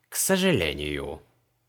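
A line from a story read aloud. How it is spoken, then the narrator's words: Dry. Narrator (Russian): сухо ответил Мао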